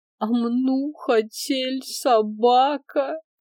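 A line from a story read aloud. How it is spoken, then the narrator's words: Upset child whimpering. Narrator (Russian): расстроенно захныкала Аленка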